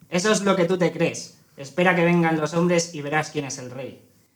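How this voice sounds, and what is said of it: Hyena character voice, peculiar accent. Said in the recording (Spanish): “Se rió la hiena con ese acento tan particular.”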